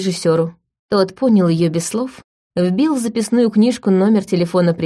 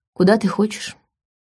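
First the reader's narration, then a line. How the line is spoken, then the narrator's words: Cold question. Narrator (Russian): холодно спросил он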